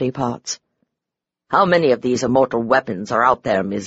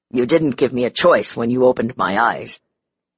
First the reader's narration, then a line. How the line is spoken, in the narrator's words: the inspector said roughly